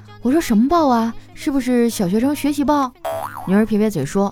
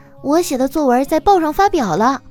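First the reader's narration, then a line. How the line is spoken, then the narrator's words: Happy child. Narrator (Chinese): 女儿高兴地说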